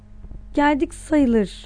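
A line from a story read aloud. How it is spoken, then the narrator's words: Stammered. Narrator (Turkish): diye kekeledi Anton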